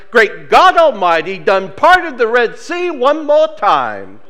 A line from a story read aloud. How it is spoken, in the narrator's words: one old woman who became ecstatic when she marched through the barricades and shouted